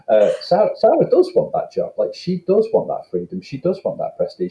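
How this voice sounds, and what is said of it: Northern English accent. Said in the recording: “Northern accent getting in the way there”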